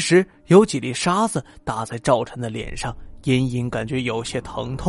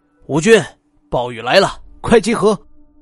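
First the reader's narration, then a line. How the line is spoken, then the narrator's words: Panicked loud yell. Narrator (Chinese): 赵晨慌了神儿，扯着嗓子就喊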